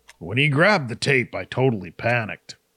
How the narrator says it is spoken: Max chuckled

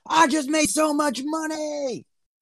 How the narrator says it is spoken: yell

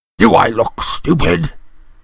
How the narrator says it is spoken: snarled Uncle Vernon

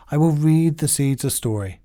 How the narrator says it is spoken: said Toad

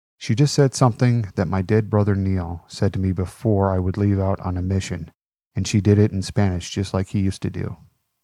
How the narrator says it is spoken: Vince leaned into Nate and said softly

